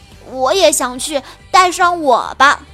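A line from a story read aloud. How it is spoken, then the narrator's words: Excited shout. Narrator (Chinese): 雪宝兴奋地拍着手喊道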